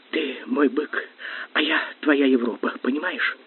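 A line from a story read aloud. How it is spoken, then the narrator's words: Whispering. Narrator (Russian): принялась шептать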